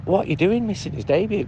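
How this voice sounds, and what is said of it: Imitated Lancashire Padiham accent. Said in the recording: “she said it in a Padiham accent. Padiham's near Burnley.”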